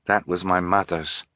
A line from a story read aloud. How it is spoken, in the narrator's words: Fiona said quietly